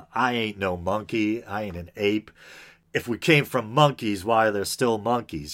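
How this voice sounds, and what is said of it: Put-on Southern US accent. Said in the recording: “instinctively going to the southern accent there”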